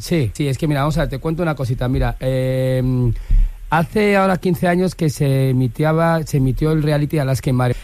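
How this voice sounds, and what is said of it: Valencian accent. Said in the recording (Spanish): “habla todo el rato con acento valenciano”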